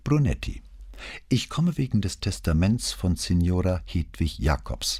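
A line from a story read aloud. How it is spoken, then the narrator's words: Calm voice. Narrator (German): sagte der Kommissario mit ruhiger Stimme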